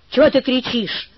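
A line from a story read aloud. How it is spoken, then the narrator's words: Angry. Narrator (Russian): сказал сердито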